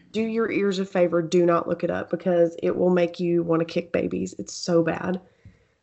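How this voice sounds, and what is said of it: Raspy, sick-sounding voice. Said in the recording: “I know I'm raspy right now, but I have an excuse. I'm sick.”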